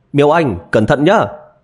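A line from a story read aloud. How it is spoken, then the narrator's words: Raised-voice warning. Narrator (Vietnamese): Triệu Ngọc cao giọng nhắc nhở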